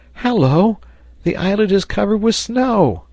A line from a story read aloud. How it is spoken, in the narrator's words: Herbert, looking early from one of the windows of Granite House, exclaimed